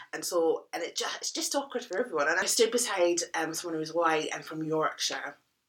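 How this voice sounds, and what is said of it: Scottish accent. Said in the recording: “where's your accent from? And I said, Scotland.”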